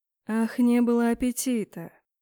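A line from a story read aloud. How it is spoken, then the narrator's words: Menacing drawl. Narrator (Russian): недобро протянул темный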